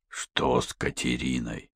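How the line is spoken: Hoarse. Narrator (Russian): хрипло произнес Йон

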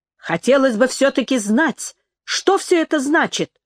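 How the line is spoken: Exclamation. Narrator (Russian): воскликнула Джорджи

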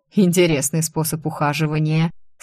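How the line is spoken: Laughing. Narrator (Russian): снова рассмеялся барон

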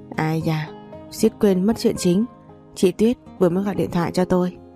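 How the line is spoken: Sighing, soft exclamation. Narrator (Vietnamese): Chị Sơ Vũ cũng chỉ biết thở dài, sau đó khẽ kêu lên

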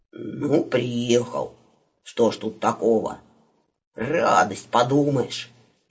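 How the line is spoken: Grumbling. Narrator (Russian): буркнул Иванушка

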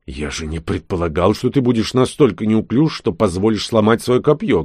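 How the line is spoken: Snapping retort. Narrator (Russian): огрызнулся он

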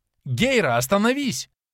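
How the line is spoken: Interrupting shout. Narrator (Russian): прокричала Анастария, прерывая Кейна

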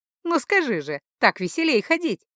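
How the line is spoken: Young woman laughing. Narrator (Russian): смеялась девушка

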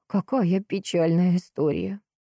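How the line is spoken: Trembling voice. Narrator (Russian): дрогнувшим голосом проговорила сыщица

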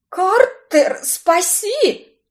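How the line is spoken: Hoarse rasp. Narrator (Russian): прохрипела я

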